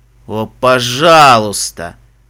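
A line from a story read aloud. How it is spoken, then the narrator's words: Groaning plea. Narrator (Russian): простонал Фестрал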